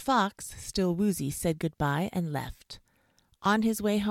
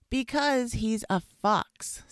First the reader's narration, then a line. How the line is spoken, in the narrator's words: said Dr